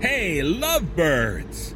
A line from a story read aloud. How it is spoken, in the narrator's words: he says, grinning happily